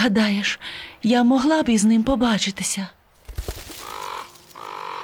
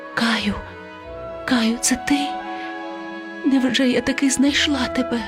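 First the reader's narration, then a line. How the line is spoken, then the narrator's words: Whispered. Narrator (Ukrainian): вона прошепотіла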